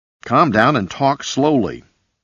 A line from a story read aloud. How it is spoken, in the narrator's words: commanded sharply